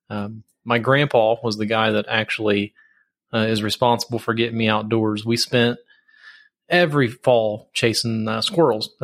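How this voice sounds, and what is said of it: Southern US rural accent. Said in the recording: “I got a little bit of an accent. I've heard everything from Texas to Alabama, but I'm actually from Southern Ohio, right against the Kentucky border.”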